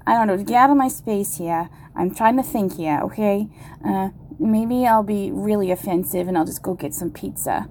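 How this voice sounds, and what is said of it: Deliberately bad Brooklyn accent. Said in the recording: “my Brooklyn, my really bad Brooklyn accent”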